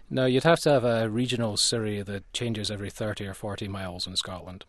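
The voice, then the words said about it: American accent. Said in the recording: “my American accent coming through”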